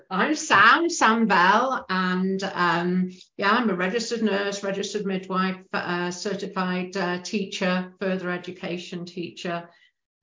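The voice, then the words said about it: British English accent. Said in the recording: “you can tell from the accent, I'm a Brit”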